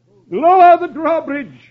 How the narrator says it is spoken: the sheriff cries

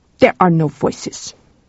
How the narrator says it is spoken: said Ingar bitterly

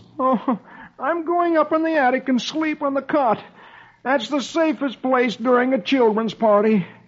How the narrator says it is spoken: poor, tired Dagwood he groans

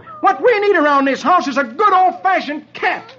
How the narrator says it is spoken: As tears of shame run out of the dog's eyes, Dagwood roars

